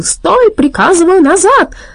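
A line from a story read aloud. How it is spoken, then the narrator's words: Yelling. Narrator (Russian): Доктор Ди завопил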